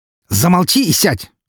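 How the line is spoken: Barked. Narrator (Russian): рявкнул на своего клиента Артемий

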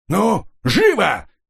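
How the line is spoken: Barked. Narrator (Russian): рявкнул управляющий

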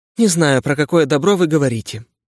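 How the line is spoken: Tired reply. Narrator (Russian): устало ответила Анна

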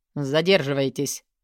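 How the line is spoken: Cold male voice. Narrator (Russian): холодно произнес он

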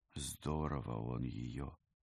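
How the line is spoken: Quiet. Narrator (Russian): негромко сказала Вика

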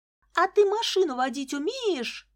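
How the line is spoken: Shouting after someone. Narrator (Russian): крикнула она Ромке вслед

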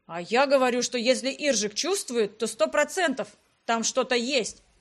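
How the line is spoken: Exclamation. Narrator (Russian): воскликнул Грегориан

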